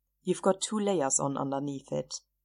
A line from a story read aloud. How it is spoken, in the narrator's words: said dryly